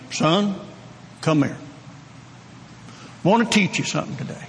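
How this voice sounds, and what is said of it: Oklahoma drawl imitating father. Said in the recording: “my dad in his Oklahoma brogue”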